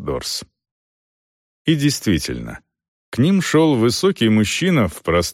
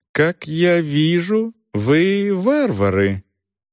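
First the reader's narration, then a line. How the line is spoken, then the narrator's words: High, slow, deliberate voice. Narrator (Russian): Голос у него оказался более высокий, нежели ожидал Селдон, и говорил он медленно, тщательно взвешивая каждое слово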